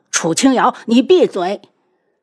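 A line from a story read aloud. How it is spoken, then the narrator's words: Angry roar. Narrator (Chinese): 宇文景睿怒吼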